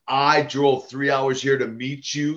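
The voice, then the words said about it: Imitated broken accent. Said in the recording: “she had kind of this broken accent.”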